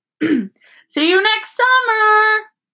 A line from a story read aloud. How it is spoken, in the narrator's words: Harry yelled